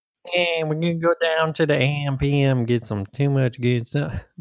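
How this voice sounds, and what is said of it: Put-on Southern American accent. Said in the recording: “that is just southern I'm doing”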